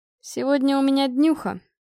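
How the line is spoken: Young man, bored tone. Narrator (Russian): произнес парень скучающим тоном

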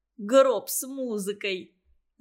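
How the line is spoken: Laughing. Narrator (Russian): засмеялся Ленька

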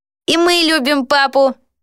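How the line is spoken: Squeaked. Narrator (Russian): пискнул Кеннет

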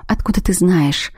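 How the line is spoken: Tearful whisper. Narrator (Russian): прошептала я, едва сдерживая готовый вот-вот брызнуть из глаз слезы

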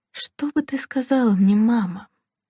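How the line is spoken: Quiet self-question. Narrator (Russian): негромко спросила она себя

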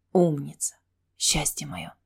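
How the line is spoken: Thoughtful whisper. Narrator (Russian): задумчиво прошептал Келфер

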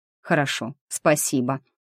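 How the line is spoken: Mumbling. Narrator (Russian): пробормотал Костик

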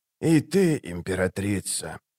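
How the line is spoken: Whisper. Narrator (Russian): прошептал он

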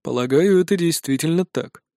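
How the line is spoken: Calm. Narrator (Russian): спокойно кивает Архивариус

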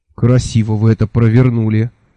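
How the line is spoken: Envious sigh. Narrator (Russian): завистливо вздохнул я

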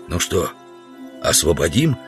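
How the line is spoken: Whispered question. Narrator (Russian): спросил шепотом Удалов у Грубина

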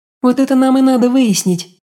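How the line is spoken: Sigh. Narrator (Russian): вздохнула Аня

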